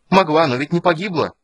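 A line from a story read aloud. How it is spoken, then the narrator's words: Defiant shout. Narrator (Russian): крикнула она с вызовом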